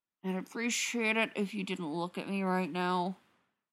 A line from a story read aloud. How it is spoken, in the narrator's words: Spencer grumbles